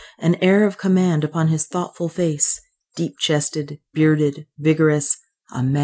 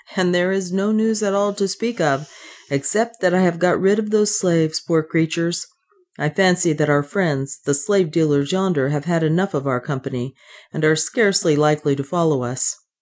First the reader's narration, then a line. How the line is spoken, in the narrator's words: he answered, laughing